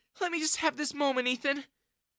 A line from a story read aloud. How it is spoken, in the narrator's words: Jessica sobbed